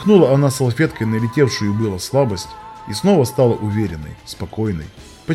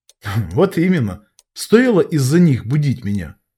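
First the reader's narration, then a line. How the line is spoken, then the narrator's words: Laughing over the phone. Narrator (Russian): Рассмеялся я в трубку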